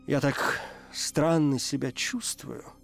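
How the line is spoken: Moaning. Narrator (Russian): простонала

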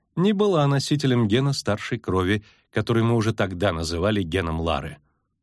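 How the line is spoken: Calm. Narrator (Russian): спокойно сказала Эннет Англиана

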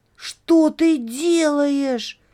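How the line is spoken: Shout. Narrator (Russian): закричал Лёня

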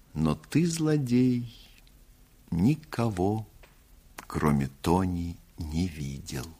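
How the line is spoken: Sad. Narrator (Russian): грустно добавила

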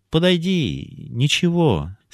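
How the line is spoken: Gentle, affectionate. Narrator (Russian): сказал ласково Яков

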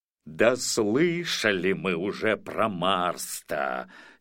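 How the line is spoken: Angry grumble. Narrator (Russian): сердито проворчал Хагрид

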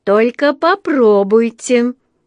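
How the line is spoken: Menacing. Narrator (Russian): грозно начала миссис Бёрд

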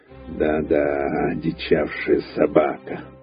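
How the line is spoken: Grumbling. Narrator (Russian): проворчал он

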